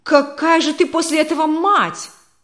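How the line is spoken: Shouted. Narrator (Russian): закричал Игорь Петрович

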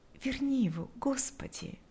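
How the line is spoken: Whispering. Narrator (Russian): шептала она

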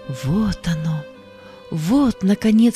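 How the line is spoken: Tearful grateful whisper. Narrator (Russian): шептал он, заливаясь благодарными слезами

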